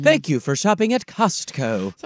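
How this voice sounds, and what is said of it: Imitated robotic self-checkout voice. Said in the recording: “What do you think of my impression? ... the robot lady goes”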